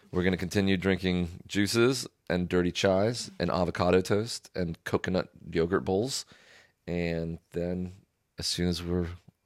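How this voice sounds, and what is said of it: Flat, monotone delivery. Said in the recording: “I know it's a bit monotone. I'm hungover as hell.”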